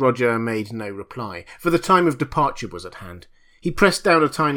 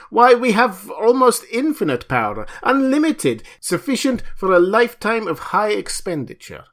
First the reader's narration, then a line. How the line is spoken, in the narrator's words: The dumbfounded Russian exclaimed